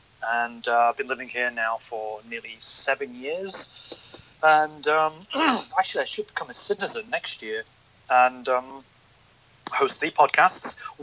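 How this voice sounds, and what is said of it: British accent. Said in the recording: “You can tell by my accent that I'm not Hong Kongese. I'm from the UK.”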